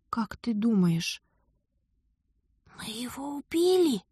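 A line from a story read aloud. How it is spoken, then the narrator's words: Whispered question. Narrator (Russian): Шепотом поинтересовалась я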